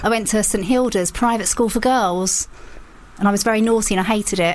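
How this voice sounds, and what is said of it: Essex English accent. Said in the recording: “Can you tell the Essex accent? ... As soon as you mentioned it, I went, yeah, that makes a lot of sense.”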